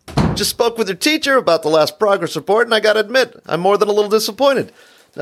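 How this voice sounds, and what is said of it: Dennis Miller impression. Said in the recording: “your range of impersonations ... What If Dennis Miller Was Your Father?”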